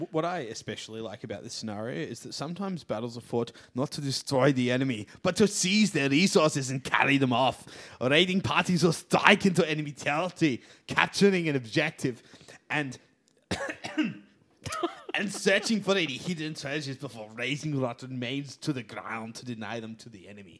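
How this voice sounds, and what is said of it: Inconsistent put-on action-hero accent. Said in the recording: “I can't figure out the accent. ... Aussie, mate. ... I think it's meant to be Stallone, and then it's meant to be Arnie, and then it goes a bit Scottish in the middle. ... It was entirely a bad John Schwarzenegger.”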